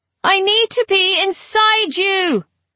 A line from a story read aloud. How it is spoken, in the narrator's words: Hera bellowed over the din